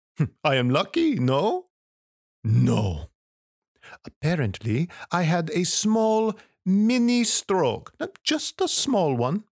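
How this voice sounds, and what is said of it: French accent. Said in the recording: “waking up with a French accent ... foreign accent syndrome”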